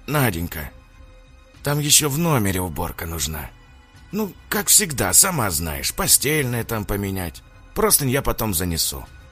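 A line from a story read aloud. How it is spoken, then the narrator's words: Quiet, bald man. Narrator (Russian): тихо проговорил лысый мужчина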